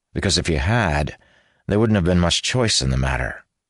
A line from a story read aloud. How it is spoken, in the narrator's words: he added dryly